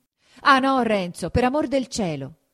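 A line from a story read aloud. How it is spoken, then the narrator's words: Shout. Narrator (Italian): gridò Lucia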